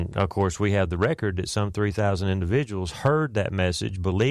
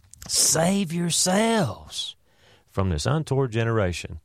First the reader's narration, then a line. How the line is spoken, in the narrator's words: screaming at the top of his lungs